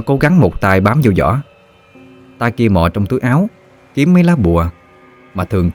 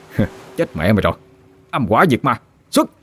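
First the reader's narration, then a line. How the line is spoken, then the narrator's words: Smug sneer. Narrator (Vietnamese): Nó đắc ý cười khẩy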